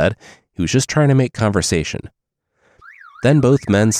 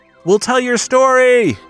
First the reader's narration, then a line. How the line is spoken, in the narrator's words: they yelled back to the island